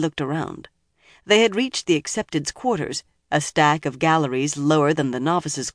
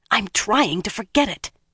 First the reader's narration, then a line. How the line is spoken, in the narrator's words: Egwene said fiercely